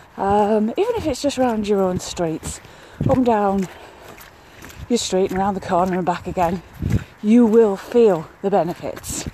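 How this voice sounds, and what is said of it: Out of breath while talking. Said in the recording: “I'll always sound like I'm out of breath, because I'll always be doing this while I'm walking the dogs”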